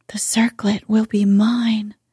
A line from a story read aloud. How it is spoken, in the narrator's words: she whispered to her lords and ladies